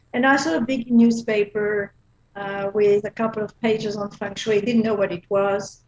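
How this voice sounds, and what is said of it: Belgian accent. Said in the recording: “I used to live in Belgium. That's what my accent is from.”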